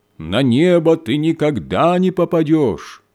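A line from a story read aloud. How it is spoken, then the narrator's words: Loud shout down chimney. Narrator (Russian): студент, сидящий на крыше, громким голосом прокричал в трубу камина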